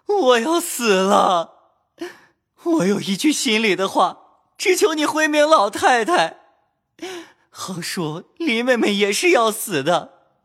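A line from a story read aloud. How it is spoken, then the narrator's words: Weak, crying. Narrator (Chinese): 连日饮食不进，身子哪能动转，便哭道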